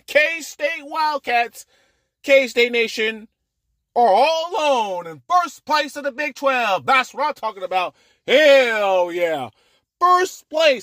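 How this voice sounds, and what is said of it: Loud excited yelling. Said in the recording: “I know I'm yelling.”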